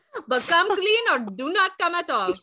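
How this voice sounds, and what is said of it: Put-on Indian accent. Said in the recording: “Indian there for you ... The accent changed”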